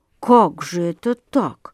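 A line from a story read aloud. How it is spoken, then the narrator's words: Distracted mutter. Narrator (Russian): бормотал он, собираясь с мыслями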